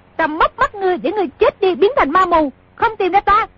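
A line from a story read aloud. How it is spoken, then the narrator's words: Princess shouting. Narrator (Vietnamese): công chúa không mắc lừa y nữa, quát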